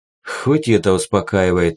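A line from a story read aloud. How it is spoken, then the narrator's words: Relieved sigh. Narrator (Russian): вздохнул я свободнее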